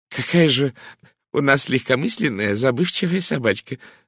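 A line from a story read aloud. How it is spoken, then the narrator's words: Exclaiming. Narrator (Russian): воскликнула мисс Лоусон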